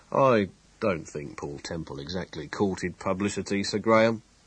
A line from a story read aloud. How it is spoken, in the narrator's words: he said quietly